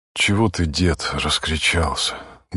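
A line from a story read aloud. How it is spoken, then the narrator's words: Pleading voice. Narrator (Russian): говорил умоляющим голосом отец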